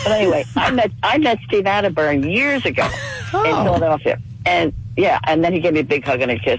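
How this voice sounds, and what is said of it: Hoarse, fading voice, fast talking. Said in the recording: “I'm losing my voice. I'm getting a cold ... I'm going to talk fast because I talk fast anyway.”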